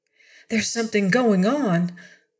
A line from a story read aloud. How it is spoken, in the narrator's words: a woman passenger said nervously